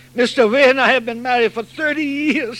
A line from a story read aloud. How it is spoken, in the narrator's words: sobbed